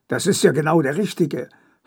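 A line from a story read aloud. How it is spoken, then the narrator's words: Hissing snap. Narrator (German): faucht er mich an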